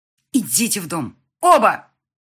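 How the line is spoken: Yelling. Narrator (Russian): Лина просто орала на нас

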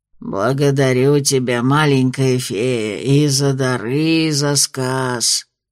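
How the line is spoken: Hoarse, yawning. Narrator (Russian): прохрипел, зевая, Краунд

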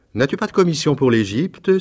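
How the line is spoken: Exclaimed. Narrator (French): s'écria-t-il

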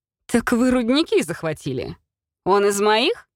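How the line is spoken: Laughing loudly. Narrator (Russian): Расхохотался он опять

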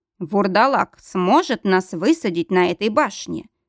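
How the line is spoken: Plain question. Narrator (Russian): спросил Мортон

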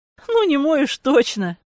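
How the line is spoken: Laughing girl. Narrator (Russian): засмеялась девушка

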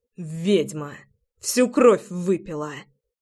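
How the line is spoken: Hissing. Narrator (Russian): Прошипел я

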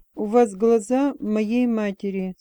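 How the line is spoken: Plain. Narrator (Russian): сказал он

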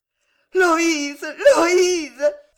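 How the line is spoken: Ringing, loud voice. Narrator (French): répéta Jeanne d'une voix éclatante

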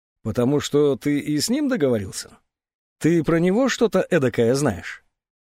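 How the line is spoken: Silent laugh. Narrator (Russian): Незнакомец беззвучно рассмеялся

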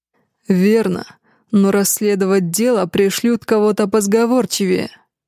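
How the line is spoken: Growl. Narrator (Russian): прорычал я

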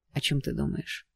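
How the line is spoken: Quiet question. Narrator (Russian): тихо спрашивает Брент

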